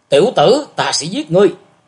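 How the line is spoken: Shouting threat. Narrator (Vietnamese): người ấy quát

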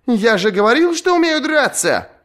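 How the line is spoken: Shouted. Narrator (Russian): крикнул он

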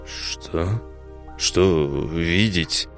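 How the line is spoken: Forced out, self-contemptuous. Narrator (Russian): выдавил Тарас с презрением к себе

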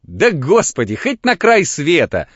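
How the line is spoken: Laughing. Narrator (Russian): засмеялся дьякон

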